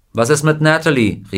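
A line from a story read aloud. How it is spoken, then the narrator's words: Someone calling out. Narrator (German): rief jemand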